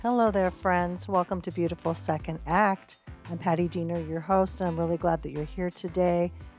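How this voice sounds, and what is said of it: Scratchy, slightly rough voice. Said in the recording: “my voice is a little scratchy, I've been feeling a little under the weather ... I don't have too rough of a voice ... scratchy throat”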